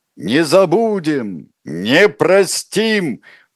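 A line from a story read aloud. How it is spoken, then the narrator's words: Shouted slogan. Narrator (Russian): выкрикнул Лев Давыдович свой последний лозунг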